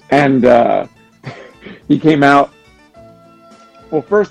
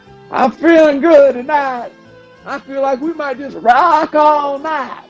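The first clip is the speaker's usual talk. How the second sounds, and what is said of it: Heavy Louisiana accent, old singer. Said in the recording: “he's got that big, heavy Louisiana accent. That's actually a pretty good impression of Jerry Lee Lewis ... that's a pretty good impression”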